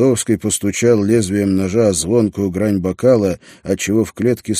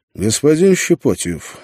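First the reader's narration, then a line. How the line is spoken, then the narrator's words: Dry. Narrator (Russian): сухо сказал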